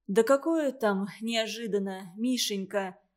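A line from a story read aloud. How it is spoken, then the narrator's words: Sad. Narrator (Russian): печально ответила Галя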